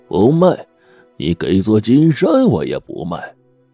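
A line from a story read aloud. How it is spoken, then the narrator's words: Sudden cold sneer. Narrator (Chinese): 马明德看他那副傲然的样子，突然冷笑一声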